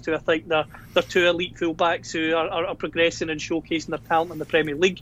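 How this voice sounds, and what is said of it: Scottish accent. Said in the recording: “judging by my accent, I'm from Scotland”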